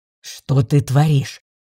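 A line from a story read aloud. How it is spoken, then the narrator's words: Growl. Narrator (Russian): Рыкнул лорд Радкар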